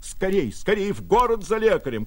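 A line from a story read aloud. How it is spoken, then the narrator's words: Shouting. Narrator (Russian): кричал Владимир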